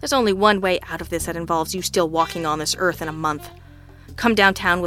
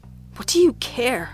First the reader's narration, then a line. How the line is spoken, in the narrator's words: Mayfield whimpered